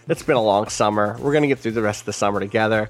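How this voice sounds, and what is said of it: Tired-sounding voice. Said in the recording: “I'm tired... you can hear it in my voice.”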